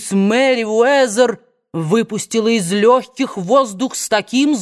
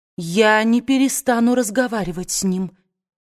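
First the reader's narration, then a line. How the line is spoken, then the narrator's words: Quiet. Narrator (Russian): негромко проговорила она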